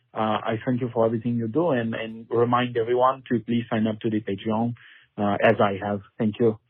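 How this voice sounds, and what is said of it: Put-on French accent. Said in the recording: “I cannot do that good of a French accent. That was on point.”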